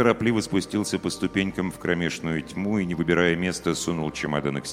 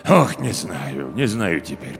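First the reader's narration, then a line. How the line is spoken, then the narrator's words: Muttering. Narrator (Russian): пробормотал управдом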